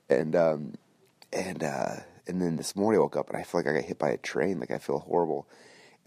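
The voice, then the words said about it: Voice sounds a bit off. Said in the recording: “you can hear my voice sounds kind of funny right now”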